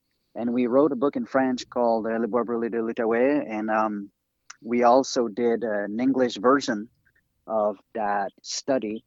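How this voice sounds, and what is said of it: French accent. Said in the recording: “Apologize for my French accent. Sometimes it's getting rough after a few days of not speaking English.”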